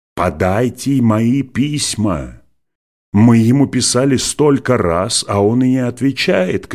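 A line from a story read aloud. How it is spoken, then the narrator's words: Woman shouting. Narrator (Russian): кричала пасторша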